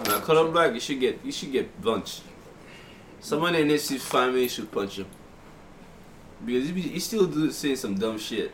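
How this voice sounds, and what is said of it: Speaks with a non-native accent. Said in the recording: “I have an accent. can tell.”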